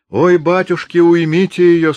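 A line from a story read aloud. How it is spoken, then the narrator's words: Moaning. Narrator (Russian): стонала Варвара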